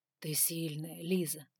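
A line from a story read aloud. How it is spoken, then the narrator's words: Whisper. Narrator (Russian): прошептал он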